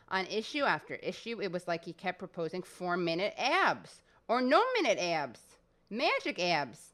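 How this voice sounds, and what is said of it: Exaggerated Midwestern accent. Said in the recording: “I'm overdoing her Midwestern accent”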